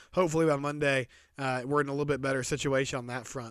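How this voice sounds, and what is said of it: Raspy voice. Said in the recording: “my apologies again for my voice ... Allergies have been just kicking my tail ... that's why my voice sounds raspy”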